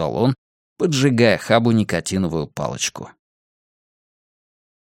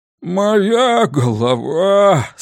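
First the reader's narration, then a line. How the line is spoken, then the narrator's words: Groaning. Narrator (Russian): стонал месье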